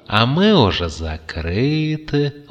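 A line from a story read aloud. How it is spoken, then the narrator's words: Gentle old man. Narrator (Russian): ласково сощурился старичок с палочкой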